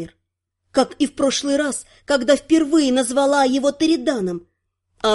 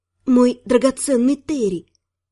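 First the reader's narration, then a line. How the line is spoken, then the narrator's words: Hoarse after shaky sigh. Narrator (Russian): Боевик судорожно вздохнул, сказал хрипло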